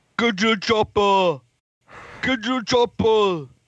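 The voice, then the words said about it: Imitates another person's voice. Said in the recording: “Can you give us a Arnold Schwarzenegger impression? ... Good impression too, by the way.”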